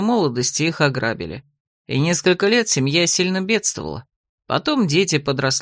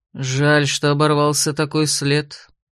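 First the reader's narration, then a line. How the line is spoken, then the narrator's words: Gloomy. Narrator (Russian): мрачно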